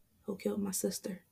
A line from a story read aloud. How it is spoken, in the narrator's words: He asks softly